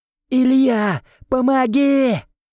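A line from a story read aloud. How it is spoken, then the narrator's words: Yelling for help. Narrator (Russian): заорал Эл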